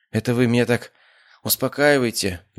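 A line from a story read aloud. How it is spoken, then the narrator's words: Sad wry tone. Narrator (Russian): грустно ухмыльнулся мужчина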